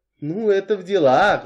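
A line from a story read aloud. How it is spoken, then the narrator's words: Sighing. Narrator (Russian): вздохнула миссис Ривз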